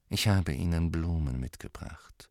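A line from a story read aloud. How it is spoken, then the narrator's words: Quiet. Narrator (German): sagte er leise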